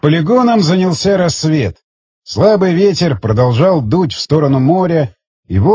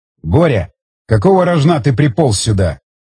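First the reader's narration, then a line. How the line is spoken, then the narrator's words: Angry. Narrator (Russian): зло проговорил Стечкин в адрес Колесникова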